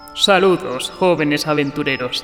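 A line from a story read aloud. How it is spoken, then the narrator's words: Resonant, wind-like centaur voice. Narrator (Spanish): dijo el centauro con una voz que resonaba como el viento entre los árboles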